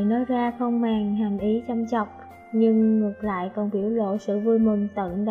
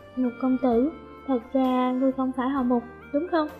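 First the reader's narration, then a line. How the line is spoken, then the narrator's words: Slightly whispering. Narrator (Vietnamese): giọng có chút thì thào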